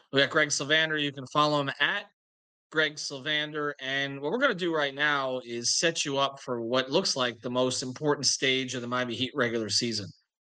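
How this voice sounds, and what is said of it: Voice affected by a cold. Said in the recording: “My lingering cold continues, so I apologize for my voice.”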